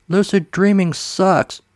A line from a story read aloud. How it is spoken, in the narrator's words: he screams